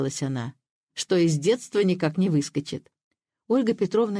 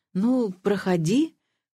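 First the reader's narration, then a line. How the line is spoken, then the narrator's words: Hesitant invitation. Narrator (Russian): как-то неуверенно пригласила Ольга Петровна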